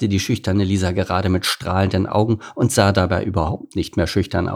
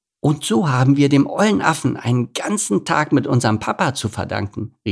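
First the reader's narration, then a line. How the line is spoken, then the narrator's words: Gleeful squealing call. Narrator (German): rief Lisa quietschvergnügt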